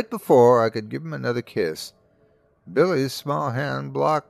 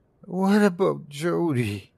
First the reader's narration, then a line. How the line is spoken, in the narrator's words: he said, his voice a mere whimper, like he was asking a question he wasn't sure he wanted the answer to